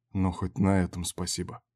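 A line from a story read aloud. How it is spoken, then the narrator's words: Grumble. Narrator (Russian): буркнул Берг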